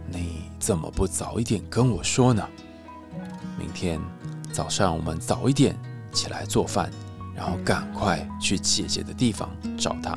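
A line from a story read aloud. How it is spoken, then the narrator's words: Gentle. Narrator (Chinese): 国王温柔的告诉谢春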